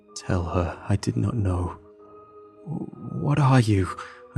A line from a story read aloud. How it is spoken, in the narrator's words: I stammered